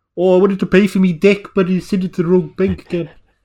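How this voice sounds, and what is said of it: Put-on accent. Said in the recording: “my accent ... I think I've heard you do all the accents”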